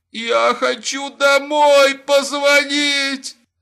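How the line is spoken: Whimpering. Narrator (Russian): захныкал Лапин

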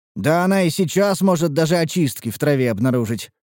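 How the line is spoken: Snorting. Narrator (Russian): хмыкнул я

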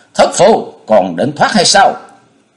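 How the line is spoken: Two men shouting fiercely. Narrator (Vietnamese): hai vị huynh đệ đang bừng bừng khí thế cùng hét lên to

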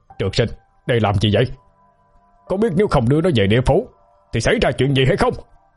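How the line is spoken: Angry loud shout. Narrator (Vietnamese): A Lý xa sầm nét mặt quát lớn

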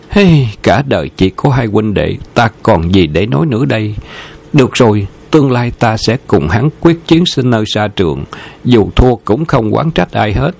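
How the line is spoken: Surprised, resigned sigh. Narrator (Vietnamese): Khâu Trọng thoáng ngẩn người, ngạc nhiên, cuối cùng thở dài

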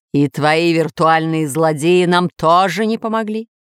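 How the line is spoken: Stern growl. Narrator (Russian): прорычал еще строже повелитель

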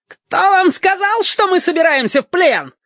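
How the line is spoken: Shrill reply. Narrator (Russian): визгливо отозвался Харес

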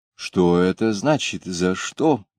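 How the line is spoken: Quiet indignant question. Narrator (Russian): тихо, но возмущенно спросил Робинзон

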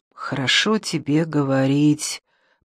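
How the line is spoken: Whisper. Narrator (Russian): прошептал Эрик

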